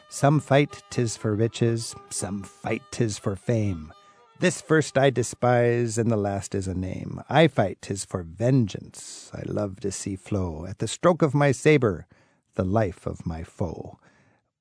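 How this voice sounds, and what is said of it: Weak put-on pirate accent. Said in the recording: “I don't have a very good pirate accent”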